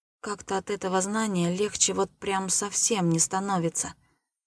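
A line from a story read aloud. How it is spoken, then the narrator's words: Honest mumble. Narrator (Russian): промямлил я совершенно честно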